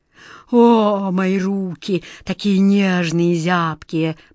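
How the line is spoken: Moaning. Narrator (Russian): простонал король

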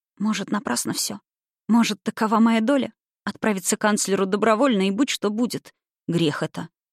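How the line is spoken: Gentle, unsurprised. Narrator (Russian): отозвался мягко, ничуть не удивившись

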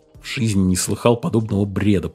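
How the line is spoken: Muttered. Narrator (Russian): пробормотал Дженсен

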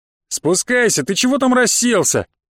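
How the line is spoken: Shouted from below. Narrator (Russian): крикнул снизу хозяин дома

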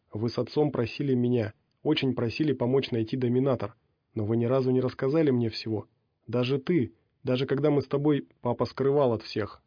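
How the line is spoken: Plain. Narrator (Russian): сказала она

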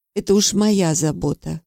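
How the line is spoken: Calm. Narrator (Russian): спокойно ответила я

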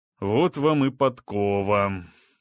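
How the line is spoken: Grumbling lion. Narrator (Russian): проворчал лев

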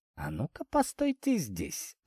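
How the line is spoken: Whisper. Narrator (Russian): шепнул Изя

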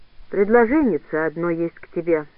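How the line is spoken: Calm. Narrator (Russian): спокойно сказал кузнец

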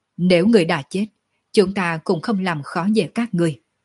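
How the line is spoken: Disappointed sighing speech. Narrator (Vietnamese): Sở Dương thất vọng thở dài một tiếng nói

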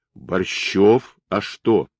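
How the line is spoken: Plain. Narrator (Russian): ответил Чернявый

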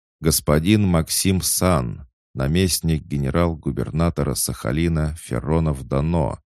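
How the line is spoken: Loud herald's announcement. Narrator (Russian): громко объявил глашатай

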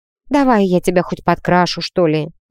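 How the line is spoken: Sighing conciliatory offer. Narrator (Russian): Вздохнув, предложила Вира в качестве примирения

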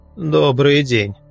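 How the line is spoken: Muttered. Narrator (Russian): буркнул я

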